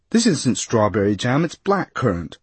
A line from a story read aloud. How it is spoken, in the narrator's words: a familiar voice say, quite loudly and in a discontented tone